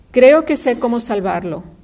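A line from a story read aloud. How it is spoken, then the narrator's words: Shouting. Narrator (Spanish): le gritó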